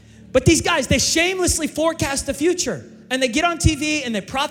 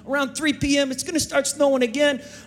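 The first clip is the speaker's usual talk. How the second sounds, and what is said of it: Put-on New Jersey accent. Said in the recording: “I don't know why I'm doing this accent. do we have like a New Jersey, forecaster out there? ... I love the Jersey accent.”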